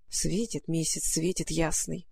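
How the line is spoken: Muttered to herself. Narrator (Russian): пробормотала про себя Маруся

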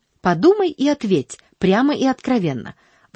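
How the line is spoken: Agitated insistence. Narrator (Russian): взволнованно настаивала она

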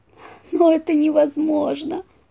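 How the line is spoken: Moan. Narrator (Russian): простонал Зайка-пекарь

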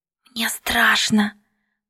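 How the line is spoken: Whispered. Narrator (Russian): прошептала

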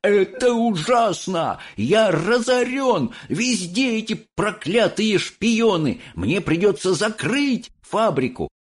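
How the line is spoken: Desperate shouting. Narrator (Russian): Он рвал на себе волосы и кричал

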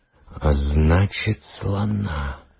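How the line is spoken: Quiet, father. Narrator (Russian): тихо сказал папа

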